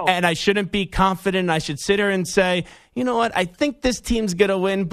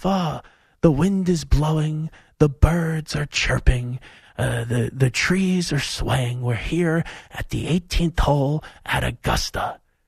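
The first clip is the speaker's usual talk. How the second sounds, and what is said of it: Lowered, soft-spoken golf-announcer voice. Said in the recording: “lower my voice a little bit ... real soft spoken”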